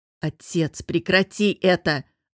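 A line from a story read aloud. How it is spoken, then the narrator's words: Snapped through gritted teeth. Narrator (Russian): огрызнулся Костя, процедил сквозь стиснутые зубы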